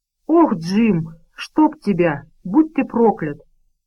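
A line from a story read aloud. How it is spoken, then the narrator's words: Exclaiming, then checking himself. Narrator (Russian): воскликнул Вилл, но тут же спохватился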